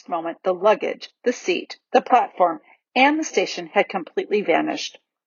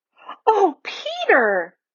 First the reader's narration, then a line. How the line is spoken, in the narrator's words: exclaimed Lucy